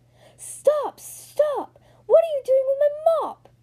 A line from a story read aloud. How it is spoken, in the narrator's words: somebody yell